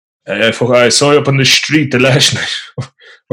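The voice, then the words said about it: West of Ireland accent. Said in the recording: “very, you know, west of Ireland... We took a lot of inspiration from the way my dad talks... before the S's, to be like a H just coming after the S”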